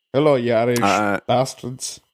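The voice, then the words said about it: Poor attempt at Irish accent. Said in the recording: “I can't do an Irish accent.”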